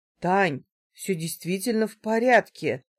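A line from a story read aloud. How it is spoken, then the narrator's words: Confused reply. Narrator (Russian): ответил он растерянно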